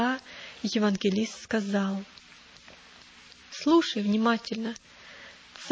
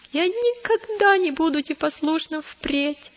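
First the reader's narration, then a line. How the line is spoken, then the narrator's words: Child sobbing. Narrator (Russian): прорыдал маленький христианин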